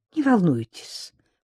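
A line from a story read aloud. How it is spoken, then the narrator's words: Cooing woman. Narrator (Russian): проворковала клиентка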